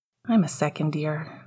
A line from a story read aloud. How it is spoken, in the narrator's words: mumbled Ian